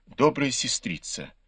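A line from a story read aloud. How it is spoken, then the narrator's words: Timid request. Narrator (Russian): робко попросил ее Бао Юй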